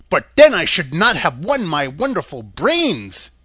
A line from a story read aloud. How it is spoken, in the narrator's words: cried the Scarecrow